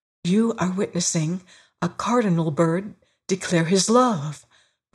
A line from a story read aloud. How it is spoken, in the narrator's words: breathed the harvester